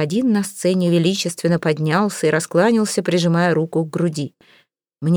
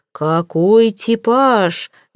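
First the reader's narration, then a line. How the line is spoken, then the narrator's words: Roaring. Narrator (Russian): взревел он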